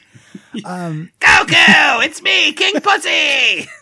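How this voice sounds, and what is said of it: Unpleasant, energetic Dragon Ball character voice. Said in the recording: “your impression of that is great ... your impersonation of that ... It's such an unpleasant voice ... It's scary ... energetic”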